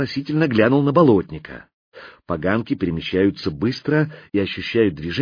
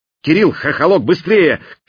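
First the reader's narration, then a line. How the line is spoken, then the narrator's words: Shout. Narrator (Russian): крикнул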